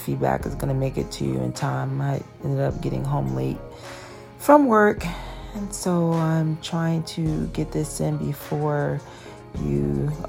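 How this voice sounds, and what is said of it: Tired-sounding voice. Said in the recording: “If I sound tired, it's because I am... my brain is almost shut down”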